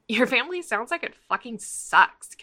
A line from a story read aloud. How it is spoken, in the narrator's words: Catra blurts